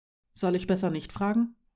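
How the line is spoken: Plain. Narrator (German): fragte Marim

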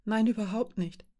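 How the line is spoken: Whimpering objection. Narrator (German): widersprach Mara, wimmerig

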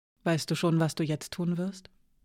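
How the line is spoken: Asked softly. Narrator (German): fragte Hiraya leise

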